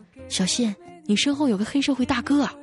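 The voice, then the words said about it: Quiet, hushed voice. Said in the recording (Chinese): “小声的对我说”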